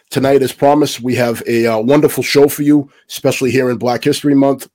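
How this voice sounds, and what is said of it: Voice sounds ill, unlike usual. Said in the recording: “my voice is not like it usually is. I am suffering from a bit of COVID”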